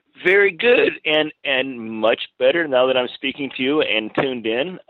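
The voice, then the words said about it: Rich, resonant radio voice. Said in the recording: “you have a good radio voice. You really do. ... You have a good radio voice. ... that radio voice.”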